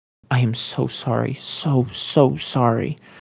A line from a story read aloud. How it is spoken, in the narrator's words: she mumbled back against his neck, as the reality of what she'd done fully coalesced